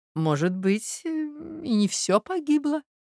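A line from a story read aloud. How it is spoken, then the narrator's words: Quiet, pensive. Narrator (Russian): проговорила госпожа Москалева тихо, как будто что-то обдумывая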